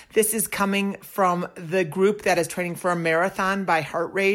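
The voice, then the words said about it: Slightly hoarse, froggy voice. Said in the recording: “My voice is still a little froggy”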